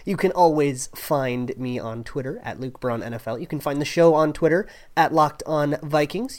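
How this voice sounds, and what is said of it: Sick, rough-sounding voice. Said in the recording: “I am still a little under the weather, so I am so sorry if my voice is kind of gross and sickly”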